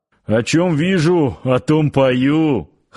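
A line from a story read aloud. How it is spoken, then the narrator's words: Chuckle. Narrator (Russian): хохотнул Парсыкин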